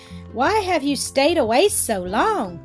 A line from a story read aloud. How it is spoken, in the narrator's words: exclaimed, his mother harshly